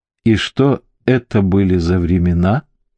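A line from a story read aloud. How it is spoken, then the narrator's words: Gentle question. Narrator (Russian): ласково спросил Тесхамен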